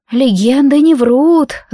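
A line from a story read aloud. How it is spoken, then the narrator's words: Sinister, through gritted teeth. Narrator (Russian): зловеще процедила Ива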